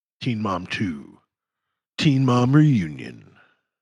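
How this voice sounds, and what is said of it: Movie trailer narrator voice. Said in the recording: “doing the movie voice”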